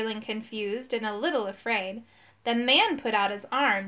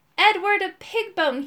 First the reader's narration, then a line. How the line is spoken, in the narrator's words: he cried